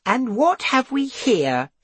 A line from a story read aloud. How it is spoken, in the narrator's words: she scoffed